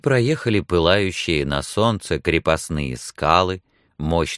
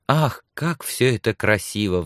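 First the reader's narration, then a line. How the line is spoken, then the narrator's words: Sigh. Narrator (Russian): вздохнула Сексон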